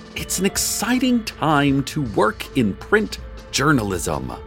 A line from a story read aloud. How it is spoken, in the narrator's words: Hart shouted after a news blogger